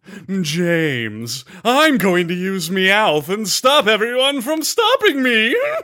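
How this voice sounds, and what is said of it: Impression of James from Team Rocket. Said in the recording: “What about James from Team Rocket? ... That was really good.”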